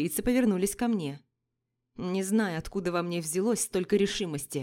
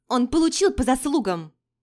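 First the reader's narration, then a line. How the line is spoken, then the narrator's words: Shouting out. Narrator (Russian): выкрикнула Адель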